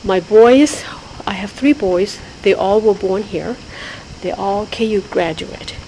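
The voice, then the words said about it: Thai-accented English. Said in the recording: “I can't get rid of my accent, regardless, because we speak Thai at home”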